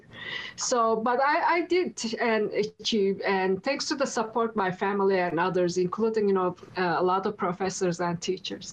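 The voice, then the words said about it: Non-native foreign accent. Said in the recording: “You can say from my accent, I'm not, from here.”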